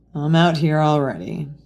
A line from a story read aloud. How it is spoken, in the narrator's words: Bucky grumbled